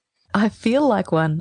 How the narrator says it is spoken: I said, laughing

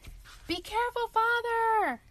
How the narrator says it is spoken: Tom shouted

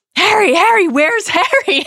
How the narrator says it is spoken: Hagrid shouts

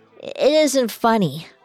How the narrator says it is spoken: she slurred

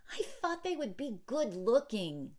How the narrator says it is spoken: Yuki exclaimed

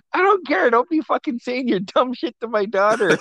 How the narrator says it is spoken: laughing really hard, and she's like

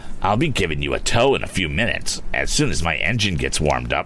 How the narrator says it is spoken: sneered Andy

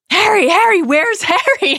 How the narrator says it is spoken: Hagrid shouts

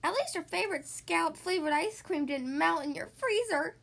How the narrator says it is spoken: Tomcat Pat whined

